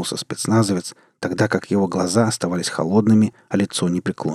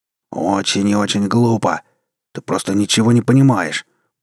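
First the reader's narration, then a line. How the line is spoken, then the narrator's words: Growling. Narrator (Russian): прорычал Роб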